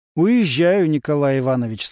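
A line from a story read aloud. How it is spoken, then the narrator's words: Plain. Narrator (Russian): сказал Немирович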